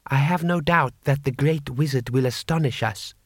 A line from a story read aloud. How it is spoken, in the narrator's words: said Butterfly